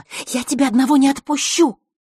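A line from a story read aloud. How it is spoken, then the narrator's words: Familiar hissing voice. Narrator (Russian): прошипел знакомый голос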